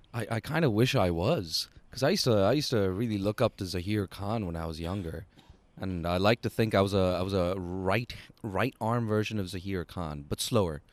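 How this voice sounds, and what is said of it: Hong Kong international school accent. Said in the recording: “that lovely sort of Hong Kong international school accent”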